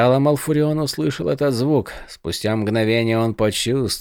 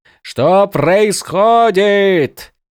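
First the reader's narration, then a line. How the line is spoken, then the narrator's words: Screaming at full force. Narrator (Russian): Закричал Малфурион изо всех сил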